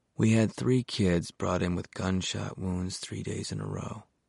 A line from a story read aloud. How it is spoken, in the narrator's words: murmured in his ear